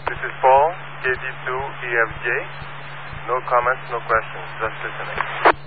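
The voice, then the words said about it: Perceptible French accent. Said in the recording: “perceptible French accent”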